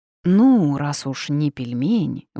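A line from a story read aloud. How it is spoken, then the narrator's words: Sigh. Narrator (Russian): вздохнула я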